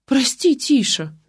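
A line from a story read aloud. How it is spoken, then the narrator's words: Timid babbling. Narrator (Russian): залепетала жена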